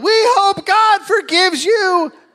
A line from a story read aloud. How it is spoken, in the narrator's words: Shauna yelled